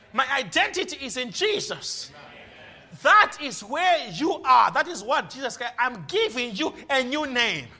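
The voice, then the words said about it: Noticeable foreign accent. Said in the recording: “I have a funny accent.”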